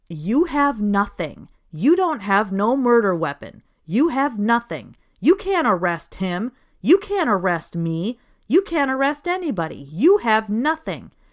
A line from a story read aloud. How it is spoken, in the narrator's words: Gene is yelling